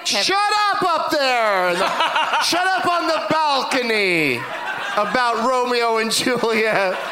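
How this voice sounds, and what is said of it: Yelling. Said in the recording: “Is that why you're yelling?”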